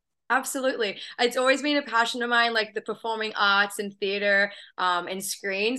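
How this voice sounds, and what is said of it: Slight Australian accent. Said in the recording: “I have a bit of an accent, so I'm originally from Australia”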